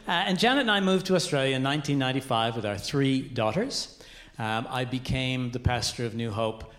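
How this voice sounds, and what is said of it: Canadian accent. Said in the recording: “I am Canadian. The accent betrays my heritage.”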